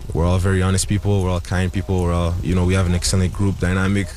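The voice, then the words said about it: Noticeable accent. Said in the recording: “with that accent”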